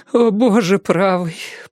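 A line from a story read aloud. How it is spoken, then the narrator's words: Tearful moan. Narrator (Russian): простонала Алиса, и из глаз у нее полились слезы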